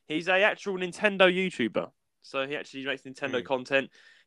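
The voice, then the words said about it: British London accent. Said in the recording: “he's a British Londoner like me. He's got the same accent as me.”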